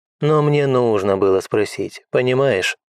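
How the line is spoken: Sighing. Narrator (Russian): Джилл вздохнула

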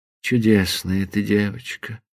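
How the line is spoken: Tender, guilty whisper. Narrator (Russian): прошептал он с нежной и виноватой улыбкой

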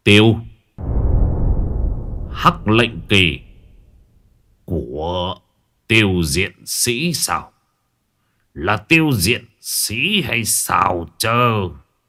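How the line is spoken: Muttered. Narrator (Vietnamese): Quỷ tăng miệng lẩm bẩm

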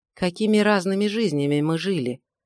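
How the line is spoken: Thoughtful. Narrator (Russian): задумчиво произнес Джон

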